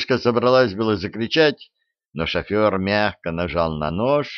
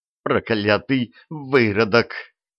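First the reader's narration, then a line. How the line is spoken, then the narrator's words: Choked-out fury. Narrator (Russian): выдавила она, кипя от ярости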